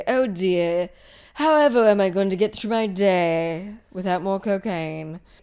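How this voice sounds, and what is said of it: World-weary drawling imitation of another person. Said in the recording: “John Malkovich impersonation ... The same intonation, the same inflection, the same, like, I'm so world-weary”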